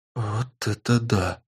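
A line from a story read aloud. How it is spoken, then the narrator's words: Whispered. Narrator (Russian): прошептала Тесс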